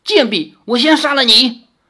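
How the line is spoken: Shocked furious rebuke. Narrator (Chinese): 狐妖惊怒的斥道

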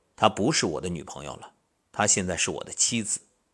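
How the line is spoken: Cold voice. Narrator (Chinese): 那位朋友的脸色一变，冷冷的说道

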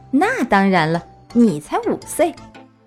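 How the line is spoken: Laughing. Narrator (Chinese): 小熊哥哥笑着说

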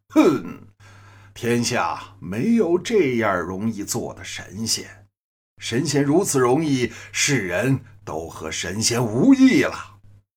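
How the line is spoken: Cold sneer. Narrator (Chinese): 太白金星一声冷笑

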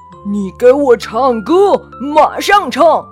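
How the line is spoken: Giant's loud shouting. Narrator (Chinese): 伐木巨人正冲着魔法树大声地叫喊

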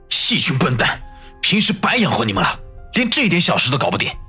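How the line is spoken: Furious roar through teeth. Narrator (Chinese): 孙威也被王宇的身手给吓住了，咬牙切齿的吼道

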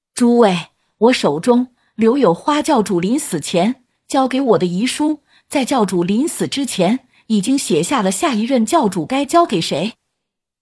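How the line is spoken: Deep sigh, then loud. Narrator (Chinese): 黑灵深深的叹了一口气，随后大声开口说道

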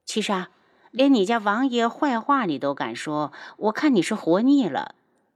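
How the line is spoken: Chuckle, then mock-stern. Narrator (Chinese): 楚清瑶轻笑出声，然后板起脸

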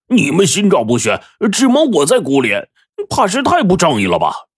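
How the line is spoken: Loud shouting. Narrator (Chinese): 大声嚷着

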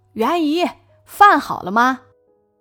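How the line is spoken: Happy calling. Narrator (Chinese): 开心的叫他袁姨

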